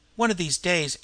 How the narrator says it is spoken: interrupted Schlucker, sharply

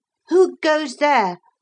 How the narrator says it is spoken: Philip cried with proper spirit

